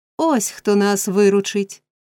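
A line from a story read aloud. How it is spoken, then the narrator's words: Man exclaiming. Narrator (Ukrainian): вигукнув єврей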